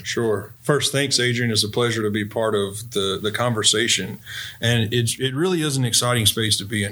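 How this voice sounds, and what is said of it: North Carolina Southern accent. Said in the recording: “if you can't tell by my voice, I am a native of North Carolina”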